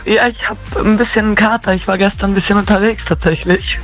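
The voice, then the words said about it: Voice sounds noticeably off. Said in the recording (German): “Ist irgendwas mit der Stimme los bei dir?”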